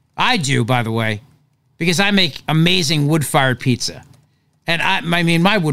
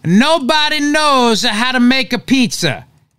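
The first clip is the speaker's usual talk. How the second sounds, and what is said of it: Put-on Italian accent. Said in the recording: “you got to say it in an Italian accent”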